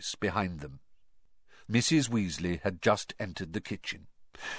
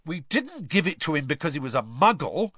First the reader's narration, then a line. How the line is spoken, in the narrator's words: said Fred indignantly